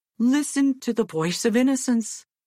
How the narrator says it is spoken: exclaimed his father

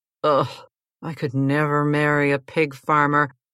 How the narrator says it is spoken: was his typical disaffected self and mumbled

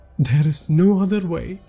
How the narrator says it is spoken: Vipul said tearfully

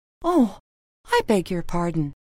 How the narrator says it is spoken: cried Alice hastily

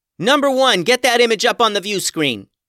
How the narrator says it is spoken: yelled Max

